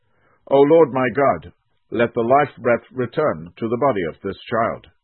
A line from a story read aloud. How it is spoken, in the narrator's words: called out to the Lord